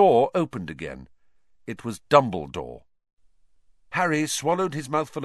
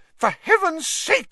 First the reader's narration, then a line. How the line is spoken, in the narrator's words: said Madame Pumphrey hysterically